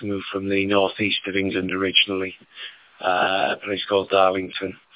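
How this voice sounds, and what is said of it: Northern English accent twang. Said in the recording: “if there's a twang in the accent, it's a northern one”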